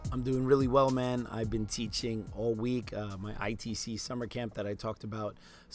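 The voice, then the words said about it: Weak, strained voice. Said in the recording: “my voice is a little weak because I've been teaching like 30 savages every day and having to talk loudly ... my voice is a little bit weak”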